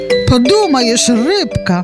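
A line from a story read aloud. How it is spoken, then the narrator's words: Feigned cheerful exclamation. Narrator (Belarusian): прытворна весела ўсклікнула рыжая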